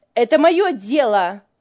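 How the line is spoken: Snapped angrily. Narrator (Russian): сердито бросила Лиля

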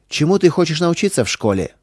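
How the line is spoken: Chief's stern question. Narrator (Russian): строго спросил вождь

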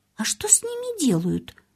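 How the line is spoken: Confused question. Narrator (Russian): растерянно спросила она у Марты

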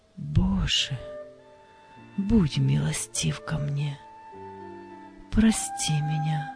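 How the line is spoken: Quiet whisper. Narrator (Russian): его тихий шепот

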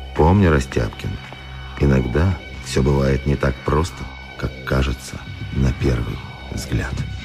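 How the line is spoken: Barely audible. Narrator (Russian): директор еле слышно сказал

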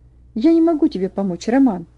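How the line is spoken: Agitated answer. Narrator (Russian): ответил Ваня взволнованно

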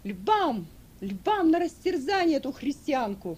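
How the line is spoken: Shouted. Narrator (Russian): Закричали

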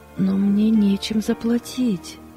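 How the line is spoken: Sad. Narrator (Russian): грустно сказала она

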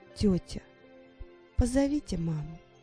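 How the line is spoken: Remorseful, muffled girl's voice. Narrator (Russian): раскаянным тоном произнесла девочка, зарывшись лицом в подушку

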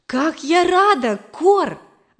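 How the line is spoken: Exclaiming. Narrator (Russian): воскликнула я

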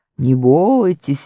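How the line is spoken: Cheerful growl. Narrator (Russian): весело прорычал Аслан

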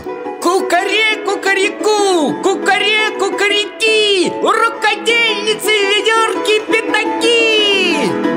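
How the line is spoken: Joyful rooster crowing. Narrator (Russian): петух ... обрадовался ... закричал

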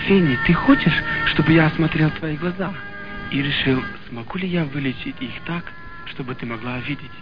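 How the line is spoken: Gentle. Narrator (Russian): Ласково обратился к ней доктор Мот

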